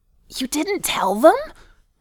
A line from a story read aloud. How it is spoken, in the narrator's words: Nori hissed, with trepidation